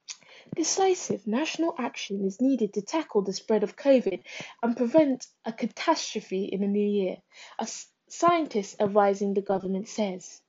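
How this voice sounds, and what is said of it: Smooth radio newsreader voice. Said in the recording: “We're going to turn on the smooth radio voice.”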